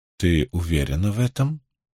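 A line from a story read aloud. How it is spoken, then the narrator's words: Quiet, distinct Tarabon accent. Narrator (Russian): тихо спросила Бианин с отчетливым тарабонским выговором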